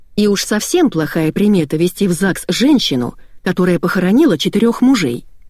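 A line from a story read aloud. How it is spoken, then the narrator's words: Sharp. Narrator (Russian): резко сказала Антонина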